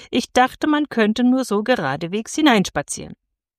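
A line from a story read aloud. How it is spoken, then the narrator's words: Calling out. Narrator (German): rief Andres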